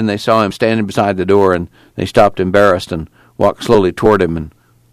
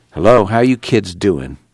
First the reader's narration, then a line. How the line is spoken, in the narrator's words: replied softly